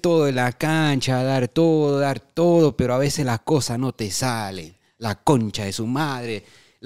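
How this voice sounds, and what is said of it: Put-on Argentine Spanish accent. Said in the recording (Spanish): “acento argentino”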